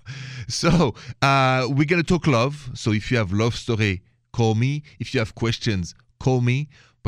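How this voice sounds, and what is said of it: French accent from Paris. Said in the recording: “The accent is French. Français. Straight from Paris... The accent didn't cross the border. It's still there.”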